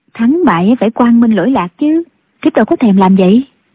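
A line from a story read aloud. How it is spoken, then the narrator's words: Smiling young woman. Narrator (Vietnamese): Thiếu phụ mỉm cười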